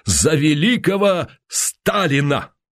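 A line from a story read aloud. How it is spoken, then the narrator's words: Pause, then passionate ringing voice. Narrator (Russian): Уваров помедлил, закончил страстно зазвенявшим голосом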